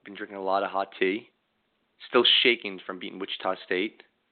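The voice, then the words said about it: Hoarse voice cutting in and out. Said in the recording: “You got to bear up my voice a little bit ... my voice is going in and out.”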